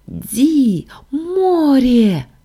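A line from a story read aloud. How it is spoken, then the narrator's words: Exclaiming. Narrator (Russian): воскликнула Сашка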